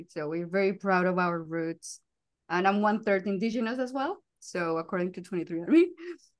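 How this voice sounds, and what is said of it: Colombian Spanish accent in English. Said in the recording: “I'm from Colombia, as you can notice by the accent.”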